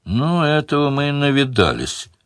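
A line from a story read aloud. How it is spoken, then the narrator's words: Wry snort. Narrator (Russian): хмыкнул Шедарис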